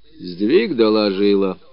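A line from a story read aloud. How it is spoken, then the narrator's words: Calm reply. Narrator (Russian): также спокойно ответил Родион Потапыч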